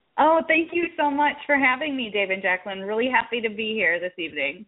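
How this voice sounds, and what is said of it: Minnesota accent. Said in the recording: “I'm in Minnesota ... I'm hoping my accent won't come through over the podcast ... We know the accent.”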